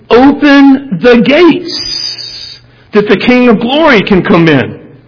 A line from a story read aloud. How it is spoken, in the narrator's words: the worship leaders are yelling